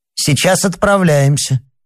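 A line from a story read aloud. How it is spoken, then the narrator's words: Stern female conductor. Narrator (Russian): сказала проводница строго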